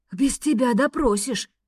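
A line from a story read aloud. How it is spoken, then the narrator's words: Dragon's growl. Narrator (Russian): рыкнул дракон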